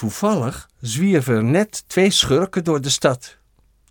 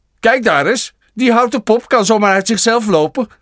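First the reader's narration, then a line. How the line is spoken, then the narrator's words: Called out. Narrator (Dutch): riep Jantje Fatsoen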